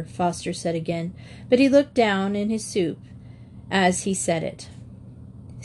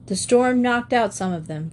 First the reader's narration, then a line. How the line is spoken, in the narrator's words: said gloomily